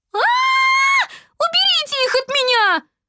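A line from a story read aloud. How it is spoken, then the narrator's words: Girl shrieking. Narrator (Russian): завизжала девочка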